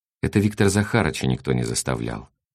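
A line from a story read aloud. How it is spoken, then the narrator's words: Thoughtful. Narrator (Russian): произнесла Мура задумчиво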